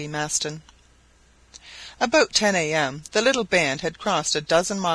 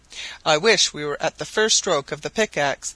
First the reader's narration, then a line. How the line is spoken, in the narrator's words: said the president